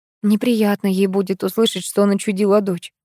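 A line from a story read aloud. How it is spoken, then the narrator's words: Sigh. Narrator (Russian): вздохнула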